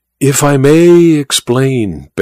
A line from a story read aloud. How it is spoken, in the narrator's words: begged Colonel Hyrax